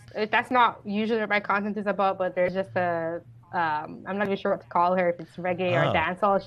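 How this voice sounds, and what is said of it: Light Jamaican accent. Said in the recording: “a bit of a Jamaican accent? It's not very strong. You have a very, very light Jamaican accent.”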